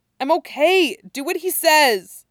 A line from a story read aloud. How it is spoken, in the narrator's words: still yelling, so says louder